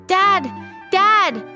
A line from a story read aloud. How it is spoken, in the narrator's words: she shouted